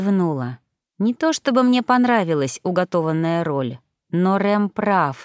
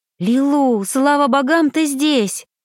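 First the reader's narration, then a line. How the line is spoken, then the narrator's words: Exclamation. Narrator (Russian): воскликнула Магда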